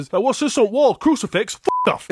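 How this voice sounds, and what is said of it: Put-on Yorkshire accent. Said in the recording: “because it is in Yorkshire, so he probably might have that accent ... with a Yorkshire accent”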